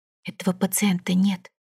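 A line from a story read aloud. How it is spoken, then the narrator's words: Quiet. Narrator (Russian): тихо сказала она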